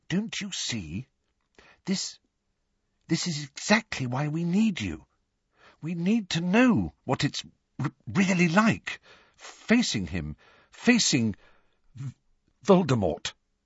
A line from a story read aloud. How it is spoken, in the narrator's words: she said timidly